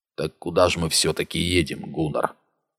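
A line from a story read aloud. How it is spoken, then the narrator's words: Quiet question. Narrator (Russian): спросил тихо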